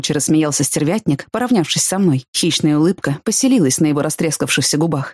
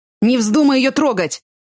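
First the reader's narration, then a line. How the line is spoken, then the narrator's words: Injured man's shout. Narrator (Russian): выкрикнул пострадавший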